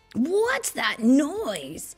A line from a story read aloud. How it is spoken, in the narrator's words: shrieked